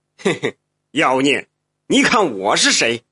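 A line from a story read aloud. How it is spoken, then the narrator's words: Laughing, woman. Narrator (Chinese): 一旁的妇人笑道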